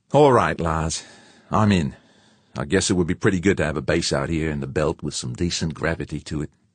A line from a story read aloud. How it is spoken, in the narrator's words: George huffed a mighty sigh, then said